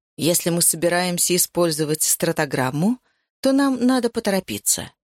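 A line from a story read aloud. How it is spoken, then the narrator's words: Plain. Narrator (Russian): сказала Ариадна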